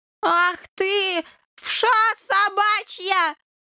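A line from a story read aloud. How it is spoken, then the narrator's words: Roaring. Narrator (Russian): взревел Полын Бурьянов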